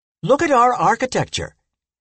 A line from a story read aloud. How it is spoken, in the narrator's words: he exclaimed